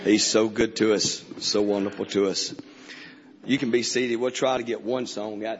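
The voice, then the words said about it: Hoarse, worn-out voice. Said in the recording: “My voice is gone. My throat's gone. Four services this week, so it's about put me out.”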